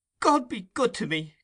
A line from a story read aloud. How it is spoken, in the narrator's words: cried the old lady